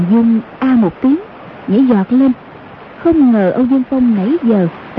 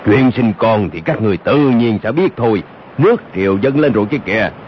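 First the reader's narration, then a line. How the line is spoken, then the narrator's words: Deep booming voice. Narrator (Vietnamese): một giọng nói ồm ồm vang lên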